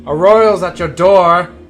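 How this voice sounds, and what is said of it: Booming yell. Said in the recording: “So I yell in a booming voice”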